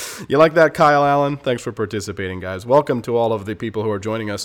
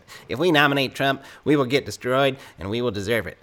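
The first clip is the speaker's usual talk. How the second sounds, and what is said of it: Imitates another person's voice. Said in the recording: “in my best Lindsey Graham accent”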